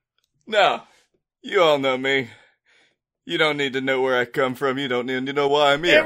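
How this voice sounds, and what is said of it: Playful put-on character voice. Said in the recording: “You kind of just want to do this fun voice.”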